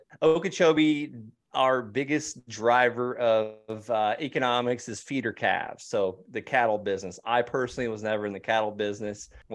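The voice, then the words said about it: Rural Florida accent. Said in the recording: “too good of an accent ... I'm actually from Okeechobee, Florida. The accent, I guess, is coming out a little bit”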